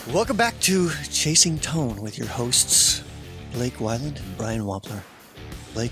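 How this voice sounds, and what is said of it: Late-night radio DJ voice. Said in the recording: “This is my late night DJ voice. ... I feel like maybe this is like our NPR voice.”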